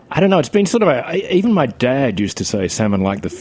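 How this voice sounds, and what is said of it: Australian accent. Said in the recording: “this accent that we're hearing right now ... in no way are you Jamaican ... I'm from Australia”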